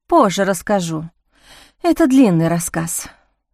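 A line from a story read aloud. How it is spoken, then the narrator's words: Sigh. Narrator (Russian): вздохнула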